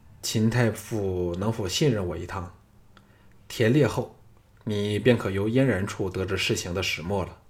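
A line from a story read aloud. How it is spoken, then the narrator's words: Smiling, gentle. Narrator (Chinese): 项少龙微笑的柔声说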